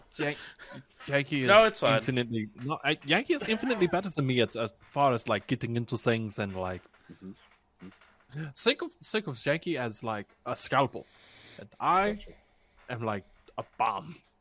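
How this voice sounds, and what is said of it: Non-local accent that sounds unusual. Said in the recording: “Why do these three sound normal and you sound weird? ... it's because I'm not originally from here”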